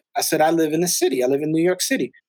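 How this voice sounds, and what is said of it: Slight Spanish accent. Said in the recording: “I got a little Spanish accent.”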